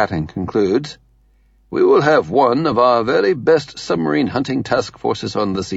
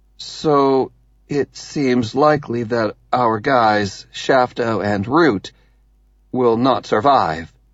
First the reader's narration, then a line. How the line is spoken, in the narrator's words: Waterhouse says slowly